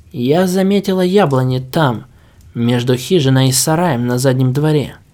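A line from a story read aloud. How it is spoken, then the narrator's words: Plain. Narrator (Russian): сказала она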